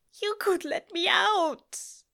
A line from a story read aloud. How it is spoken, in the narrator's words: Aziraphale cries insistent